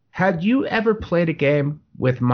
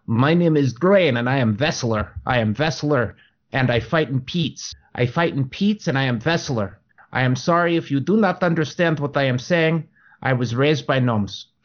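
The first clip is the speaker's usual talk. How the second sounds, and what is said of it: Put-on Russian accent. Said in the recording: “my dwarf with the Russian accent”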